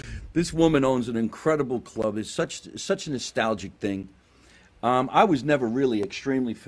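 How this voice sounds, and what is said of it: Usual voice. Nothing is said of it.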